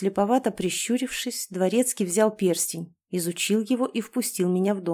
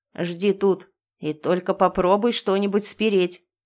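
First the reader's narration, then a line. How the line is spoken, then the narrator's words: Threatening warning. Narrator (Russian): грозно предупредил он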